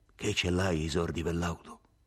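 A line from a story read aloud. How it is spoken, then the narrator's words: Hoarse voice. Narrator (Italian): disse, con la voce rauca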